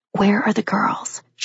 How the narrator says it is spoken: She whispered

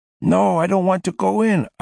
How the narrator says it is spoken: yelled

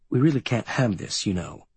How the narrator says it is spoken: he gazes at me sadly over his bifocals and says

